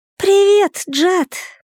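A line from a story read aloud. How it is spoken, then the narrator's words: Thin childish squeak, clear. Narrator (Russian): пропищал он тоненьким детским голоском, но вполне внятно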